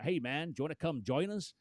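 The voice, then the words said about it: Put-on American Southern accent. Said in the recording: “American guy, proper like from down south. And I'm going to do the accent as well.”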